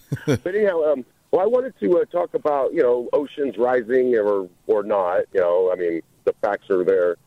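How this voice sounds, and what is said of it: Scratchy, strained voice. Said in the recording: “pardon my voice if it gets a little scratchy. I went to the NASCAR race yesterday, and I was just screaming a little bit.”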